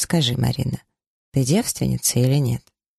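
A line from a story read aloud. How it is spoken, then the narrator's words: Embarrassed mumble. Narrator (Russian): пробормотала, чуть краснее ответила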